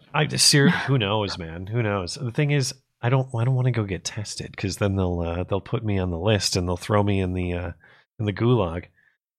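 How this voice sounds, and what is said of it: Strained, worn-out voice. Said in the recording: “my voice is leaving me. Got to clear my throat here... I think my voice is just wearing out a little bit tonight”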